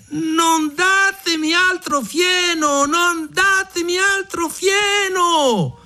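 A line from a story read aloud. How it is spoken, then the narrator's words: Shouting again. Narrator (Italian): Mignolino riprese a gridare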